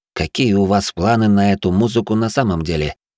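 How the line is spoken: Low voice. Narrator (Russian): низким голосом проговорил я

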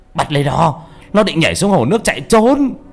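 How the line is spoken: Frightened shout. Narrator (Vietnamese): Ông Dũng sợ quá, ông hét lên

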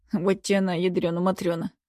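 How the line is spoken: Muttered. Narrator (Russian): пробормотал он

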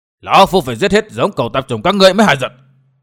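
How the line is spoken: Furious old man shouting. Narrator (Vietnamese): tiếng quát tháo của tà kiếm

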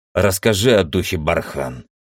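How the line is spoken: Rude demand. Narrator (Russian): грубо потребовал

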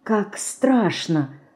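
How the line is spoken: Whisper. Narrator (Russian): прошептала она

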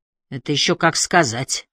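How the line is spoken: Snort. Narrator (Russian): хмыкнул Холм

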